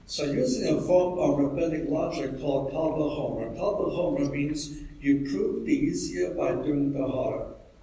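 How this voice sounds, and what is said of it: Texas accent. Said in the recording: “As you can tell from my accent, I come from Texas.”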